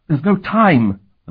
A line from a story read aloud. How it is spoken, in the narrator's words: the man gasped